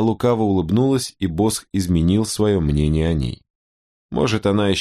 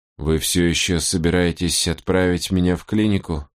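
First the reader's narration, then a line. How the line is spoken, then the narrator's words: Timid question. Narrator (Russian): робко спросила она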